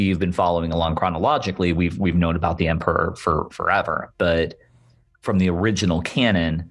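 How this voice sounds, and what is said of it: Usual voice. Nothing is said of it.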